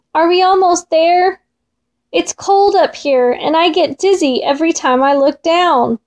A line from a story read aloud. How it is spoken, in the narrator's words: shouted Mole again